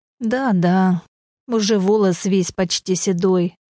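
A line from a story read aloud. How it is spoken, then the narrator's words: Sad sigh. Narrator (Russian): печально вздохнул Аркадий Борисович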